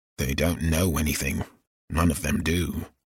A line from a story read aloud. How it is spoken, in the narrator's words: Ogden murmured